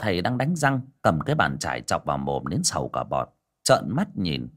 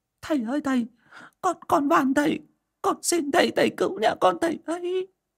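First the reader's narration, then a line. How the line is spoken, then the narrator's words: Crying. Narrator (Vietnamese): khóc lóc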